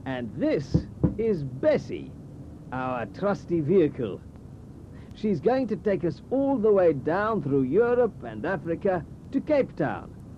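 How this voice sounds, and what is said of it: South African accent. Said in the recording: “as you can probably tell from my accent, I'm from South Africa”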